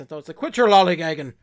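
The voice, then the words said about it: Put-on Irish accent. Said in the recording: “in my head I keep hearing it in like an Irish accent ... It sounds kind of Irish”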